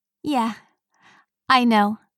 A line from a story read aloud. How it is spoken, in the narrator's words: laughed